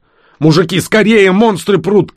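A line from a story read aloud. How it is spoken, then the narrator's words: Shout. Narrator (Russian): крикнул Бистро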